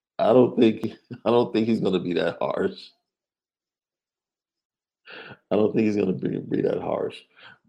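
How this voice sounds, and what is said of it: Deeper voice, hoarse from cough. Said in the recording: “been dealing with a cough ... Been dealing with a cough all weekend, so yeah, I'm sure my voice sounds a little bit more baritone.”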